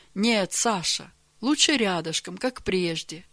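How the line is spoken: Gentle correction. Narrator (Russian): мягко поправил его Георгий Иванович

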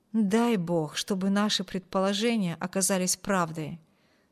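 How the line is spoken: Plain. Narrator (Russian): сказал дядя Филипп

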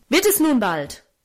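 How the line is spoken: Angry shout. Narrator (German): rief er zornig

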